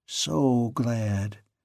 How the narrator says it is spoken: murmured

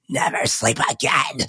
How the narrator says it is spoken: He hisses

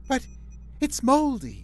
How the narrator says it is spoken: she cried

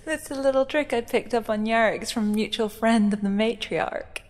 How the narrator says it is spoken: she said eventually after laughing for absolutely ages

